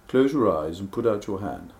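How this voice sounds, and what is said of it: Imitates another person's voice. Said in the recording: “in his rather brilliantly sort of wry and funny way ... that's not a very good impersonation of him”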